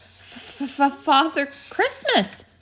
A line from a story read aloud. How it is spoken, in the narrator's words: stammered the fox